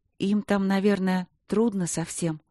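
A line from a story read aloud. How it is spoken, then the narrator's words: Trembling question. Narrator (Russian): дрогнувшим голосом спросила Василина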